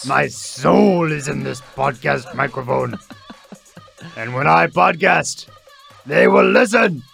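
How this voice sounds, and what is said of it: Panserbjørn bear character voice. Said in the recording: “What is this voice you are doing? ... you're the bear. You're the bear from His Dark Materials. ... your impression”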